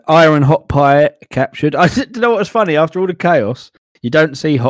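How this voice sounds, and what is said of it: Usual voice. Nothing is said of it.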